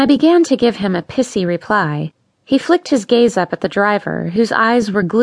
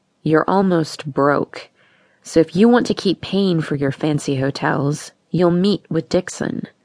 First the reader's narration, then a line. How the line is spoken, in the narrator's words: Kevin said in a low, warning voice